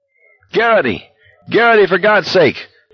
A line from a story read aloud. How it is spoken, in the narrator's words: McVries was yelling